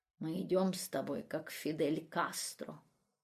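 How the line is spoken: Playful cheering whisper. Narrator (Russian): Чтобы как-то развеселить жену, кумы шепнул ей

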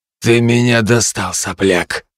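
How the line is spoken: Contemptuous through teeth. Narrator (Russian): процедил он

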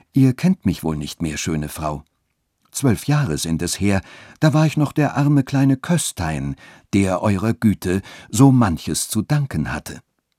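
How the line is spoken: Refined tone. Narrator (German): sagte mit feinem Ton

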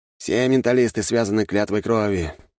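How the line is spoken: Sighing. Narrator (Russian): вздохнул Судзуки

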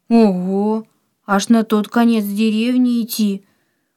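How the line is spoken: Surprised, sad question. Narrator (Russian): Удивленно и в то же время печально спросил Антон

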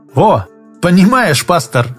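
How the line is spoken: Loud laughter. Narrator (Russian): Олег засмеялся так, что прохожие обернулись

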